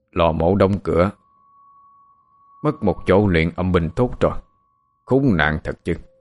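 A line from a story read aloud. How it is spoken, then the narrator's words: Harsh muttering to himself. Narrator (Vietnamese): thầy Hải gằn giọng tự nói một mình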